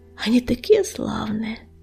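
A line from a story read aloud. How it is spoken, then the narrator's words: Lowered voice, whispering. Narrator (Russian): понизив голос, шепнула песчаная буря на ухо огнезвезду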